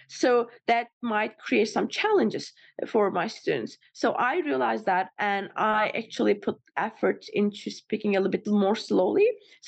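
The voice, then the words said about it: Speaks with an accent. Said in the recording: “I may speak fast. And when I speak very fast, my accent gets probably really heavy.”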